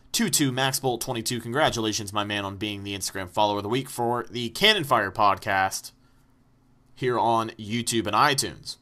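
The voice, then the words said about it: Out of breath, tired voice. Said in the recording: “I'm out of breath. I'm tired.”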